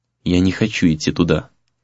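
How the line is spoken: Quiet but firm. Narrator (Russian): сказала она тихо, но твердо

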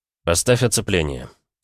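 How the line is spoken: Quiet. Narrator (Russian): тихо проговорил

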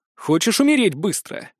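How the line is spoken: Menacing, promising tone. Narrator (Russian): спросил его многообещающим тоном

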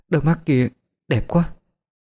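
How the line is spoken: Startled murmur. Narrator (Vietnamese): Đỗ U Tịch bất ngờ lẩm bẩm nói

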